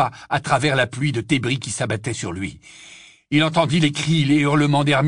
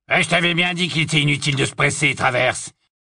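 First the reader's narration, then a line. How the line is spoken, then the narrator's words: Hoarse grumbling. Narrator (French): grommela une voix rauque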